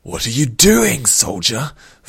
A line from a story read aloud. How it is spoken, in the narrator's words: Vor snarled in Rin's face, so close